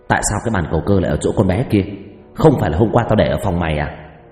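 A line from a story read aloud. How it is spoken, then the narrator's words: Harsh, gritted shout. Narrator (Vietnamese): gằn giọng quát lên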